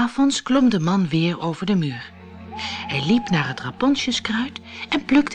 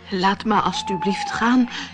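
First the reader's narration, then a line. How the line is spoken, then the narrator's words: Trembling voice. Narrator (Dutch): zei de man met een bibberende stem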